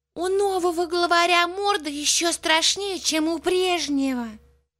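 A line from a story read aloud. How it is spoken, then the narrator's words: Sad remark. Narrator (Russian): грустно заметил Полботинка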